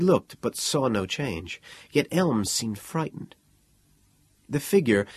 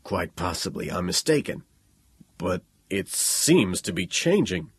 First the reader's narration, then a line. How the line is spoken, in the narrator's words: Elms said in a low voice